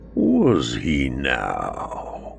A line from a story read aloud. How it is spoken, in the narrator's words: I purr